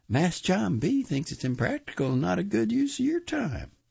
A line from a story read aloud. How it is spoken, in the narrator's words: I told him playfully